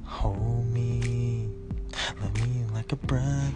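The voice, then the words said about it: Imitates another person's singing voice. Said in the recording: “give us your best impression of Michael Jackson”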